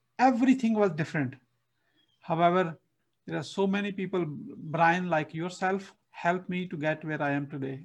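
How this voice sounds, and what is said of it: Non-native English accent. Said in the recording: “my English, if you can see my accent right now”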